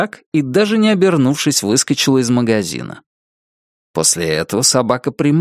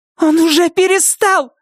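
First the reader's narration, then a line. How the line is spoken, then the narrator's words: Shouted. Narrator (Russian): закричала Нетти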